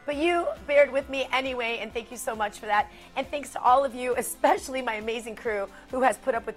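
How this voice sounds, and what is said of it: Raspy, hoarse voice. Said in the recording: “raspy voice that is just not, I'm not one of those that gets the sexy voice when I get the raspy voice”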